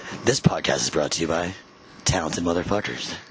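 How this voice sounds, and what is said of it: Announcer-style radio voice. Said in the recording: “I got great radio voice.”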